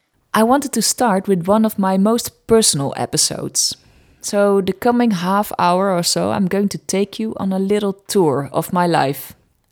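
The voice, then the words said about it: Dutch-accented English. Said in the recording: “my Dutch accent”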